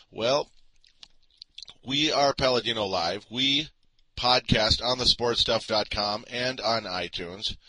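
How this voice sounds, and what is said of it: Voice sounds a little funny, unwell. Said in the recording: “my voice sounds a little funny, because once again, I'm not feeling good”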